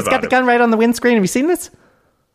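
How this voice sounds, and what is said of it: Jay Leno impression. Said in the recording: “my Jay Leno impression”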